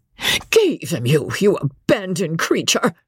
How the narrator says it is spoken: screamed Mrs

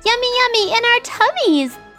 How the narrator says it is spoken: they squealed

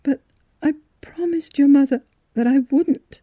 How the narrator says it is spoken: she had sobbed

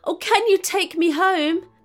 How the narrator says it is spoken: she begged

